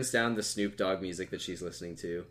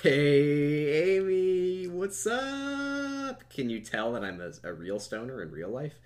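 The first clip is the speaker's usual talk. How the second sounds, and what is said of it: Stoner voice impression. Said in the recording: “I'm doing such a good weed impression”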